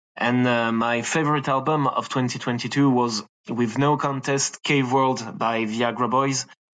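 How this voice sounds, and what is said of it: French accent. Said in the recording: “I'm from France, as you can probably hear it with this accent.”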